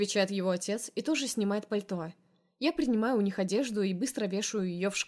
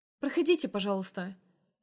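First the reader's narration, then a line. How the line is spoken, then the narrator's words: Rapid chatter, smiling. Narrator (Russian): Тараторю с улыбкой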